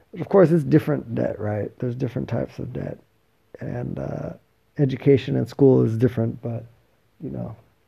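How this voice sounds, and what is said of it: Worn-out, strained tired voice. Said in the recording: “my voice is torched and I'm tired”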